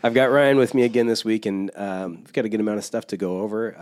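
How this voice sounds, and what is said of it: Congested, stuffy-sounding voice. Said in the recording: “still a little congested sounding for the second week in a row, so I apologize for the way my voice sounds.”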